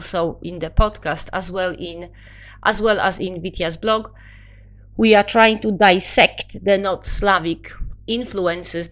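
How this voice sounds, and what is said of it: Polish accent. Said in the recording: “my, as I'm told, apparently very lovely Polish accent”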